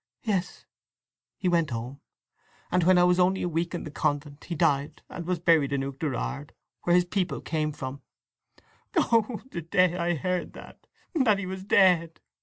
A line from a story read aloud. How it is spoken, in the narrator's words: She stopped, choking with sobs, and overcome by emotion